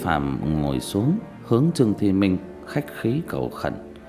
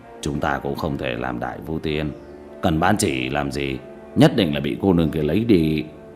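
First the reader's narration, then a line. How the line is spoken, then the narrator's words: Cold. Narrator (Vietnamese): Một tên trong đó lạnh lùng nói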